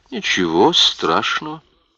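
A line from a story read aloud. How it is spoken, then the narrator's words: Calm. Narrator (Russian): спокойно сказала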